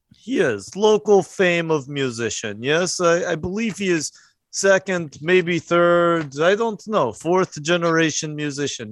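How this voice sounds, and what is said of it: Speaks with an accent. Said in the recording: “Fun of my accent”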